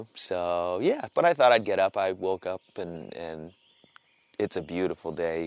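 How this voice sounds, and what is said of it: Tired voice. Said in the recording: “you can hear it in my voice... I didn't get much sleep”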